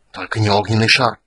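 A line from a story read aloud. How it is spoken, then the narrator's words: Hiss. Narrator (Russian): прошипел Рейстлин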